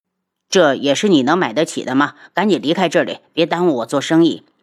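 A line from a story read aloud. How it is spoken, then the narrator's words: Cold. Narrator (Chinese): 冷声道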